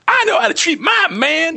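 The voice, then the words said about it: Imitates a Black woman's voice poorly. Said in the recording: “my impression of a black woman, let's face it... Impression of a black woman is me talking... But saying something a black woman would say.”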